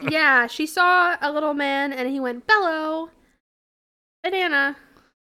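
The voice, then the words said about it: Good Minion impression. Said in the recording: “Did she see a minion? ... That's a pretty good impression.”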